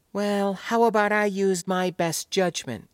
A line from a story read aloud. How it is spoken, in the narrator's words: Gaieny replied flatly, not exactly miffed by the young man's somewhat proprietary tone, but not exactly not